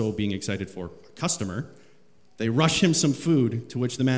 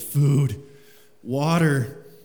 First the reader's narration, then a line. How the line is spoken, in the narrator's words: gasping